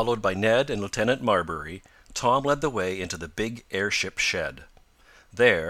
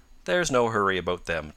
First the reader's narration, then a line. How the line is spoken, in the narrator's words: Tom said